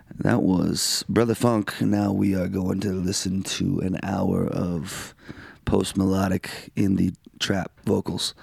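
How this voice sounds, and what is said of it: Low, slow, raspy DJ-like voice. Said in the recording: “as you can tell in my voice. It's a little low. It's a little slow. It's a little raspy. ... You sound like you're a disc jockey at an R&B station.”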